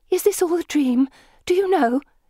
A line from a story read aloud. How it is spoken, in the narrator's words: asks in a worried voice